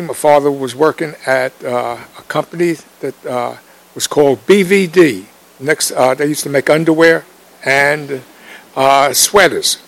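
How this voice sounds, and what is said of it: Southern US Mississippi accent. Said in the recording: “We came from Mississippi. you could tell that by my accent.”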